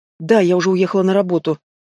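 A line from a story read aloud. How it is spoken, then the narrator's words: Mumbled reply. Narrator (Russian): промямлил в ответ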